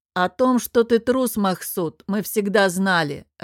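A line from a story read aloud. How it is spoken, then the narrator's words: Laughing. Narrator (Russian): рассмеялся Сергор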